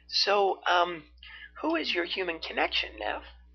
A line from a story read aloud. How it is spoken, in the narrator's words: Arya asked sweetly